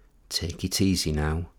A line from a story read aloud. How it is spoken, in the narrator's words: she whispered